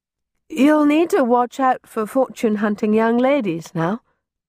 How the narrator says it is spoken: said, her awkward chuckle sufficiently hid her unhappiness

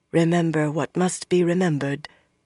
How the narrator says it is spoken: Anaya murmured

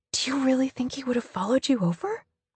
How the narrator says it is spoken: I whisper

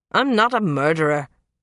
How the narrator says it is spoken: he grumbled

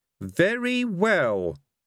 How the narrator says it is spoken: said one of the objectors haughtily

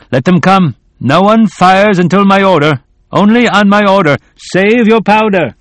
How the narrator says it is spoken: shouted

